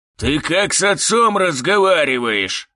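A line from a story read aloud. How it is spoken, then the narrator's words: Growl. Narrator (Russian): зарычал он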